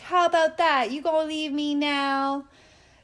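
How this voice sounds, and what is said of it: Exaggerated put-on accent. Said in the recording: “Sorry about that accent. That one got away from me.”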